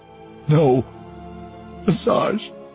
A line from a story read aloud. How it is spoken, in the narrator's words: Voss begged